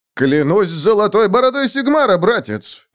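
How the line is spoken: Exclaiming. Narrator (Russian): воскликнул Отто

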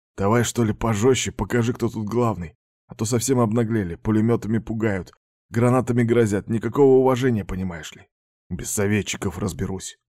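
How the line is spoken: Gruff mutter, officer. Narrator (Russian): буркнул особист

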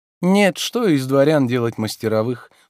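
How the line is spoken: Dry interruption. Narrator (Russian): сухо перебил Обломов

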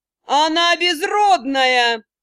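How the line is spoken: Furious woman yelling. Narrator (Russian): не сдерживая гнева, заорала женщина

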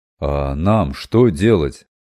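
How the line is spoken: Hoarse excited question. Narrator (Russian): хриплым от волнения голосом спросил Робинтон

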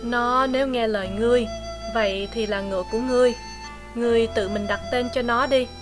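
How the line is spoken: Slight sighing speech. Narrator (Vietnamese): Hắn dường như hơi thở dài một tiếng nói

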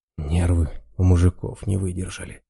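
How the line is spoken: Sad sigh. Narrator (Russian): Раз с грустью вздохнул

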